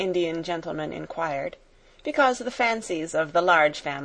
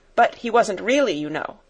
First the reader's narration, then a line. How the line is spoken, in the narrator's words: put in Janet hastily